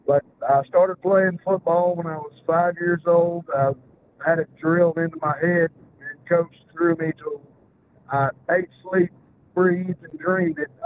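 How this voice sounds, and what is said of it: Southern US accent. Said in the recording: “I'm from Alabama, so you'll have to excuse my southern lingo and accent at times. It's a bit harder to understand.”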